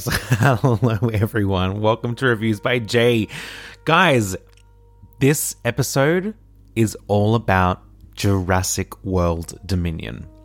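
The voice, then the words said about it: Hoarse, fading voice. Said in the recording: “Oh, wow, I'm losing my voice.”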